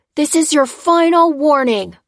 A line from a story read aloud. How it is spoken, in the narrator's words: cried the marshal